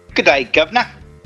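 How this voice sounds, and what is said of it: Put-on British accent. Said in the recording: “With a British accent.”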